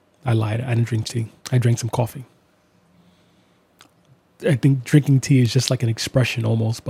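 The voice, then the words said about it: Sick, rough voice. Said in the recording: “Even though I'm sick, and even though my voice isn't great”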